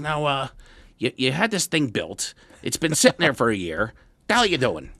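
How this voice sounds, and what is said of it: Imitates another person's voice. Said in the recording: “that was a really bad impression on my dad.”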